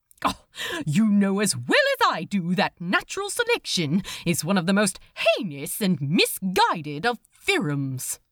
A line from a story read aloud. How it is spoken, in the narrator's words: snapped Aziraphale